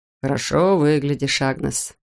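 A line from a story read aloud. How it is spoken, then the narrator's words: Purred. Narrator (Russian): промурлыкал он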